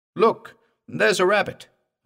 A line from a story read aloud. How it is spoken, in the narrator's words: I cried